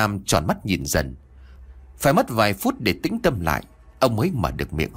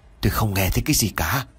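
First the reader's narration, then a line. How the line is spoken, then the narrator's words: Hoarse voice. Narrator (Vietnamese): Một giọng nói khàn khàn trả lời ông Nam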